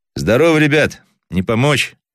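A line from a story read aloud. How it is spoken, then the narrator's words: Loud warm question. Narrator (Russian): громко спросил Кудрявцев, чувствуя в груди теплоту к этим людям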